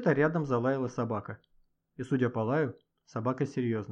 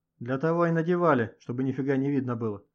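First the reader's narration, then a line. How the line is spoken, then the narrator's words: Laughing. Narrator (Russian): рассмеялся охранник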